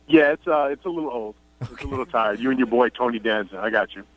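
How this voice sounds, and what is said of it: New York accent. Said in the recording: “the New York thing ... people always bringing up your accent ... everybody has something to say about my accent ... are you from Queens or Brooklyn, or are you from Long Island?”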